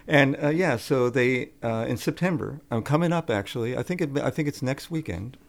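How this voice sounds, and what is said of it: Brooklyn New York accent. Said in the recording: “I'm from New York City... Brooklyn... Can't you tell from my accent?”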